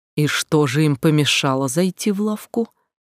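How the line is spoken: Calm despite irritation. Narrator (Russian): Толстяк был явно раздражен и чем-то недоволен, однако спокойно спросил

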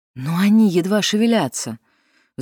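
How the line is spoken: Sighing. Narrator (Russian): вздохнула Дилейни

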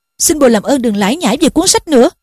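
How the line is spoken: Irritable snap. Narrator (Vietnamese): Harry gắt

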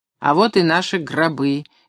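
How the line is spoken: Cheerful, loud remark. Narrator (Russian): весело и громко произнес кто-то впереди

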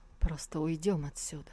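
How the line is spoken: Sigh, then quiet speech. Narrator (Russian): Тантайцзинь вздохнул и тихо сказал

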